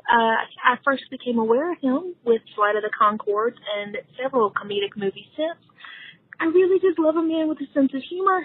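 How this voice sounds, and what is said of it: Southern US accent. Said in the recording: “I'm loving your Southern accent.”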